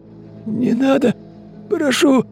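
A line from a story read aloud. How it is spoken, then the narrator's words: Hoarse, man. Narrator (Russian): прохрипел мужчина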